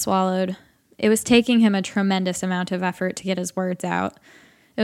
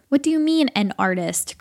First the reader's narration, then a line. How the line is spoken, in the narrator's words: Craig asked